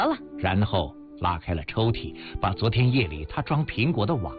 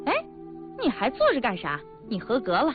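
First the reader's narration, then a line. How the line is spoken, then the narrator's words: Smiling. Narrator (Chinese): 女大夫笑着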